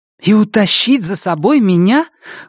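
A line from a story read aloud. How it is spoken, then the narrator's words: Indignant exclamation. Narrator (Russian): воскликнула она с негодованием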